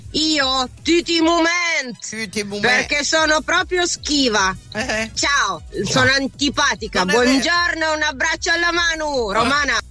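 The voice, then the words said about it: Piedmontese accent. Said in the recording (Italian): “Ve lo dico in dialetto ... Boia Faus, costa accento piemontese.”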